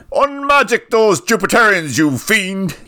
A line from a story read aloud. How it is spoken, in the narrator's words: He yelled